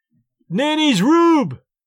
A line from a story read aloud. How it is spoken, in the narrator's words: he yelled